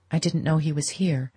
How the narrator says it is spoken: Madame Olenska murmured

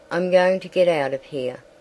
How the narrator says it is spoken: he said

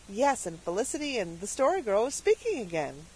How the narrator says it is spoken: said Cecily happily

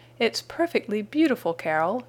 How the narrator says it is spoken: cried

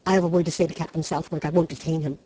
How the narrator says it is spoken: said Trent hastily

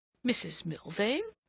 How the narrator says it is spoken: Rodney exclaimed

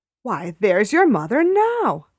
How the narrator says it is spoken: I exclaimed with joy

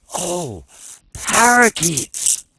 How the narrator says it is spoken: cried little Frank

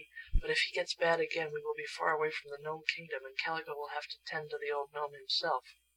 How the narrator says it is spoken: whispered Betsy to Shaggy

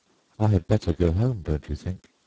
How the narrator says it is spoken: I asked

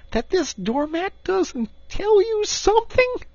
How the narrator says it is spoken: cried the excited Rat

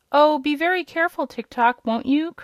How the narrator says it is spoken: cried the girl

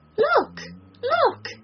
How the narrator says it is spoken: she cried

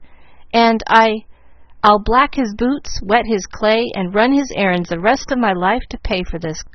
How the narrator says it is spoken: cried Ralph in a burst of gratitude

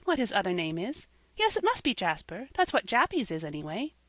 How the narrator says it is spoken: she added with a little laugh

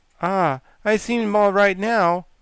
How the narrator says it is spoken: said the queer, calm animal with a sigh

